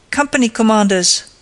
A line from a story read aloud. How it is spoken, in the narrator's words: shouted in a voice accustomed to command